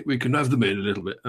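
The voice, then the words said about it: Bad Boris Johnson impression. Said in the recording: “my shitty Bojo impression”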